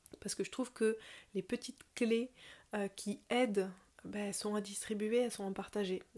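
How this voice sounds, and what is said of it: Slight southern French accent. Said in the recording (French): “je viens du sud, tu dois peut-être l'entendre un tout petit peu dans mon accent ... je viens d'en dessous de Toulouse”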